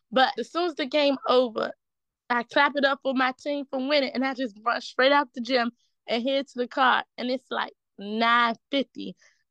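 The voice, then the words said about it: Congested voice recovering from cold. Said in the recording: “If you could tell in my voice, I'm just recovering from a cold.”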